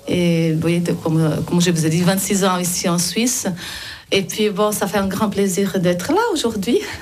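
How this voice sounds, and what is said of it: Slight Brazilian accent. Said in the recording (French): “Et vous avez un petit accent... un accent du Brésil.”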